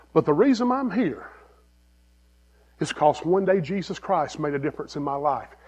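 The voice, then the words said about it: Non-local accent. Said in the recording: “I'm not from here. You can tell by my accent.”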